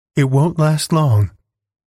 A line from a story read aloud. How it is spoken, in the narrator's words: replied Alice, and her voice sounded extraordinarily calm through the darkness